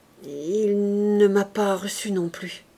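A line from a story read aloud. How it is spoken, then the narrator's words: Stammered. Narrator (French): Il balbutia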